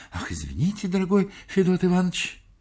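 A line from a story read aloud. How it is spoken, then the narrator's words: Trembling babble. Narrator (Russian): Кулаков трепетал и лепетал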